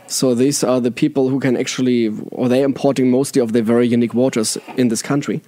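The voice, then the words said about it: German-accented English. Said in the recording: “my German accent, my funny German accent again”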